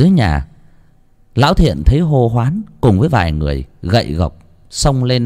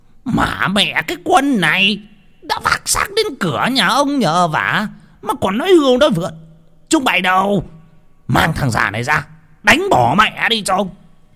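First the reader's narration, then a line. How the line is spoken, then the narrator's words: Hissing with anger. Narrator (Vietnamese): Lý Đởm rít lên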